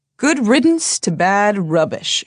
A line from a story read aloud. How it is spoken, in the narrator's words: said, chuckling